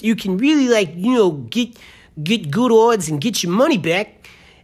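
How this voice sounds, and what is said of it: Put-on unidentified accent. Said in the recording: “I have no idea where this accent is, but I'm pretty close.”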